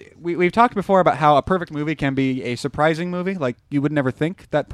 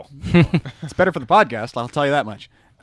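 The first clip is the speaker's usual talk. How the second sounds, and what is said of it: Sarcastic tone. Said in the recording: “I was being sarcastic”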